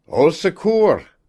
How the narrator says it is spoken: called loudly

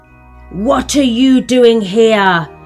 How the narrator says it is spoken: cried in a very gruff voice

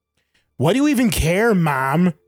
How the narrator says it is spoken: Gil snapped back at his mother

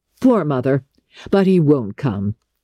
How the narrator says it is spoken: her son laughed

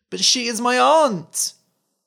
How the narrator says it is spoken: cried the boy

